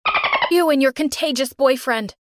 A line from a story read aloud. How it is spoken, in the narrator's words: Mom yelled at them